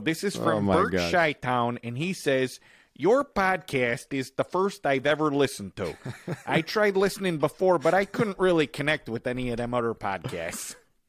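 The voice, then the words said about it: Thick exaggerated Chicago accent. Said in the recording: “I'm going to read this review here with my thickest Chicago accent that I can muster... I'm saying it like Chicago.”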